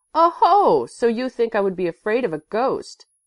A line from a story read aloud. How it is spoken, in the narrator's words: Kurt exclaimed, laughing